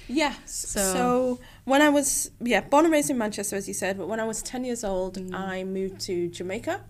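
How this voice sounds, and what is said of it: Manchester English accent. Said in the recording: “You're actually from Manchester. ... That comes with the accent.”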